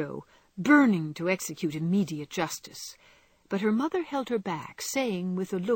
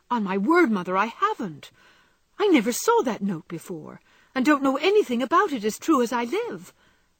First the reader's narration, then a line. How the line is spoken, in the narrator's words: said Joe, so earnestly